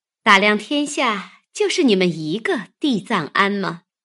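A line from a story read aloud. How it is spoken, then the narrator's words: Sneering. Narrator (Chinese): 惜春冷笑道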